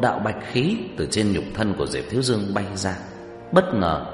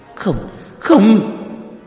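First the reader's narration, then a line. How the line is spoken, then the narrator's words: Panicked cry. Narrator (Vietnamese): Nhuế Lãnh Ngọc thất thanh kêu lên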